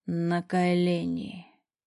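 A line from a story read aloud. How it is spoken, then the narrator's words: Hoarse command. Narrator (Russian): хрипло командует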